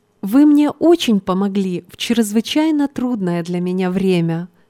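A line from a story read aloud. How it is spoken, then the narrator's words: Plain. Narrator (Russian): сказала девушка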